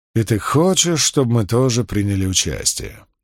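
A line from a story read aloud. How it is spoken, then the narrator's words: Soft drawl. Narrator (Russian): негромко протянул Ганник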